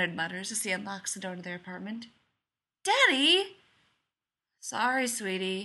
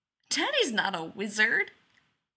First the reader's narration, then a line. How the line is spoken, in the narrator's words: Joe giggles